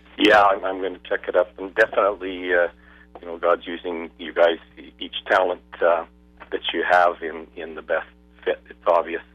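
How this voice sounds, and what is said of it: Hoarse, weakened voice. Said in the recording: “My voice is sort of gone here. I get a bit of a cold.”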